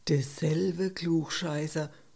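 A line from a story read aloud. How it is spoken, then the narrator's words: Murmuring. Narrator (German): Heiner murmelte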